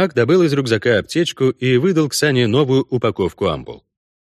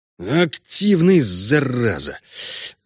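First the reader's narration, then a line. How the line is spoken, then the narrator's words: Breathed out. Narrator (Russian): выдохнул он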